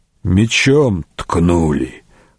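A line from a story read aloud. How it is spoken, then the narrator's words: Hoarse. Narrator (Russian): хрипло сказал Матиас Вирт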